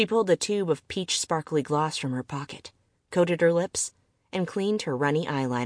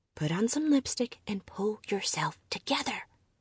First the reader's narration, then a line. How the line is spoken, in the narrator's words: Trembling, she muttered